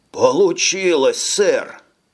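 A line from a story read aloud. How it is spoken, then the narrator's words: Exclaiming trainee. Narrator (Russian): воскликнул уцелевший стажер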